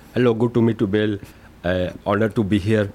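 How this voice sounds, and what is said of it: Indian accent. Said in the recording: “I had to adjust my voice, because they don't expect an Indian guy to have this voice. My actual real accent is ... That's my actual voice, but this is my fake voice.”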